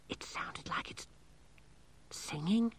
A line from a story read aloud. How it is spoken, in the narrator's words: whispered Angelo